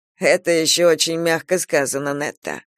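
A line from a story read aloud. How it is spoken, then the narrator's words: Snorting. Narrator (Russian): фыркнул Кастел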